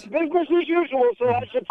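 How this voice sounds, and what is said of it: Upset, agitated voice. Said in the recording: “you sound very upset”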